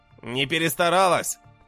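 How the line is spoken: Snorting. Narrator (Russian): хмыкнул алхимик

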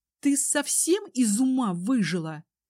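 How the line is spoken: Female hiss. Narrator (Russian): зашипела Ливия

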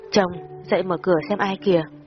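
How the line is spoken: Sleepy voice. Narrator (Vietnamese): Tôi giọng ngái ngủ nói

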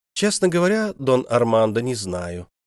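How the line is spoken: Calm reply. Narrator (Russian): спокойно отозвалась королева

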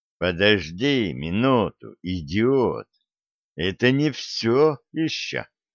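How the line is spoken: Hoarse. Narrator (Russian): Стив хрипло проговорил

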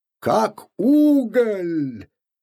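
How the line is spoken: Cheerful bark. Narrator (Russian): весело гаркнул Купфер

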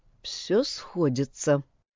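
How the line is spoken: Muttered. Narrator (Russian): пробормотала она

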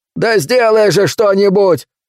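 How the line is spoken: Shouting. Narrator (Russian): кричал Каскер

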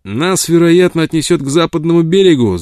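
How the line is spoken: Shouted while rowing. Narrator (Russian): закричал он, налегая на весла

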